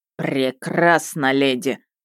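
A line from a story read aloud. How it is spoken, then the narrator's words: Growling man. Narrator (Russian): рыкнул мужчина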